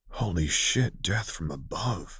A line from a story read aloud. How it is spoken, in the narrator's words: Quinn whispered, sounding just as odd